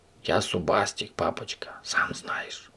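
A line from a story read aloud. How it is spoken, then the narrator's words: Whisper in ear. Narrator (Russian): зашептал ему на ухо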